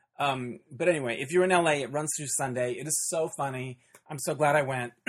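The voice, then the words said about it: Worn, hoarse voice. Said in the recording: “my voice is a little shot”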